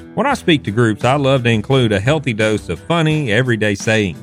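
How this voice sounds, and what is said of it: Thick Southern accent. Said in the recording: “my thick Southern accent”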